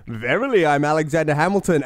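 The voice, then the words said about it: Old-timey Alexander Hamilton voice. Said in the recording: “do Alexander Hamilton's voice talking at me as if they're an old-timey dude ... do the voices”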